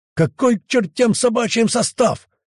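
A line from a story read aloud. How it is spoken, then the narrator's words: Merchant's roar. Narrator (Russian): взревел купец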